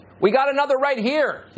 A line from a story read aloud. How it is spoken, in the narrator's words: he screams